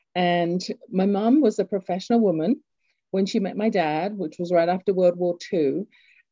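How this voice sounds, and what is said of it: English accent. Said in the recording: “I grew up in England, you can tell from my accent”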